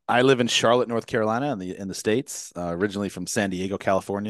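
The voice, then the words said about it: American accent. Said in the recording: “I can tell by your accent, you're not from these shores”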